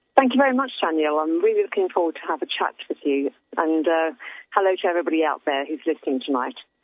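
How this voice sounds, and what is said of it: Foreign accent from across the pond. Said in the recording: “I love your accent ... I'm enthralled by your accent. How's everything over there in across the pond?”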